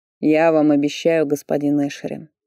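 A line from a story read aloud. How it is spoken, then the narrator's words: Purring. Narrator (Russian): промурлыкал Фарлей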